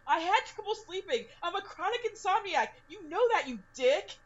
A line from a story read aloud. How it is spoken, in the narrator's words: She yelled